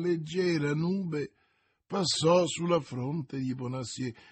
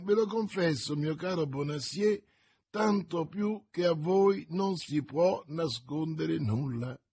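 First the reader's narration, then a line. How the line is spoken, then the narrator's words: Laughing retort. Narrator (Italian): ribatté ridendo il giovane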